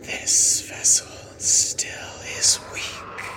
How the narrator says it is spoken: specter hisses in your face and says

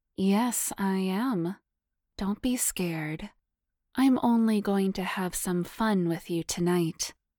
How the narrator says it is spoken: She purred back, grinning

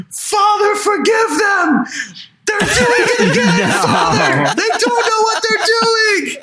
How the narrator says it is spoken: he screams

